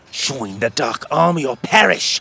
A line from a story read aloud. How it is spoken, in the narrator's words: she croaked